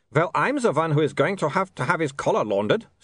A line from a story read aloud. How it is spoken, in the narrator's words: snapped Otto